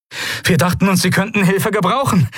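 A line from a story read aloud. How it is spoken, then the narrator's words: Breathless shout. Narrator (German): rief Novus atemlos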